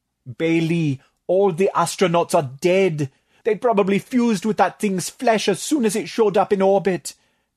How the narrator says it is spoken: moaned, clenching his webbed fists

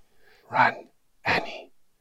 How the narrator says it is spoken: he whispers

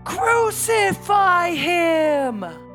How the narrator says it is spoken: They shouted back

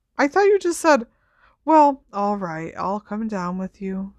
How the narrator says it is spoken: sighed Ron

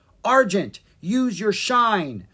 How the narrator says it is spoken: cried Jean

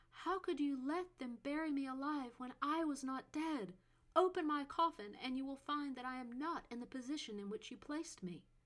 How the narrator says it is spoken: Jocelyn cried out

